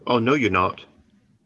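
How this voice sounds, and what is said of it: Brief put-on British accent. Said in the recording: “that was a different accent for a moment there... British.”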